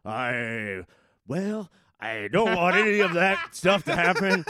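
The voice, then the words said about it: Imitates a president's voice. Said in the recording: “your Nixon set word is your Reagan impression. ... This is my impression of president.”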